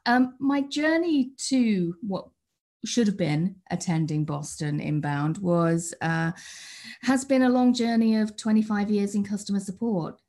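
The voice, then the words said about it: British accent. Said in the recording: “by the accent that I'm British”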